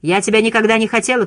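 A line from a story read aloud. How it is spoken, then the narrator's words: Mother shouting. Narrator (Russian): кричала мать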